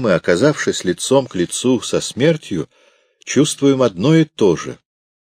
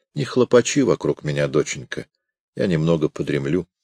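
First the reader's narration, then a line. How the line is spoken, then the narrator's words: Mumble. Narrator (Russian): он, почувствовав, что мне скучно, пробормотал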